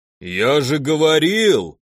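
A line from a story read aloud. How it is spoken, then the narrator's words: Growl, small creature. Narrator (Russian): прорычало второе чумазое существо невысокого роста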